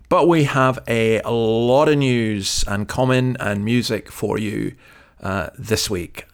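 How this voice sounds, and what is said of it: Numb, slightly impaired speech. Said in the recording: “forgive my voice. ... I'm still feeling the effects of numbness.”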